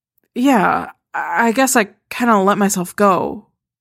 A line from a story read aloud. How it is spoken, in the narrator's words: she mumbles, ducking her head, hearing the hidden criticism in the compliment